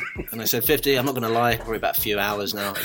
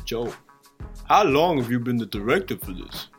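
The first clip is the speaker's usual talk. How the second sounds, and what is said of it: Imitates another person's voice. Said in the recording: “can't do a good accent”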